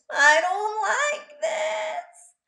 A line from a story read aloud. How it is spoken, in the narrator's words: she wailed